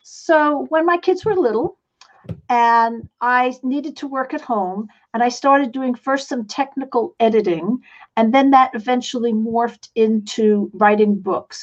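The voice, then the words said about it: Slight New York accent. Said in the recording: “I come from New York City. Some of you might still recognize I have a little bit of an accent. ... you can't take the New York out of the girl”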